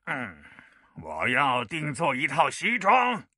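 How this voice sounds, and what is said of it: Unnatural disguised voice. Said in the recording (Chinese): “神秘的客人用不自然的声音说道”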